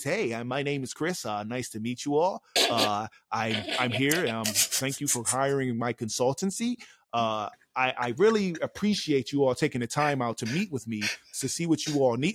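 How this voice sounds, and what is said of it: Fake polite professional voice. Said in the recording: “you got to be this fake individual. You got to put on this voice ... I don't want to talk like that”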